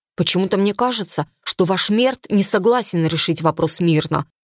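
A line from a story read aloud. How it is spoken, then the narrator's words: Father's nearby mutter. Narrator (Russian): пробормотал рядом отец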